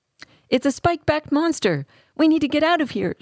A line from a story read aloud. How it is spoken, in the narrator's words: shouted Damian